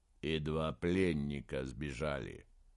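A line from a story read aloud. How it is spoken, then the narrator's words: Grim conclusion. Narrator (Russian): мрачно закончил Инген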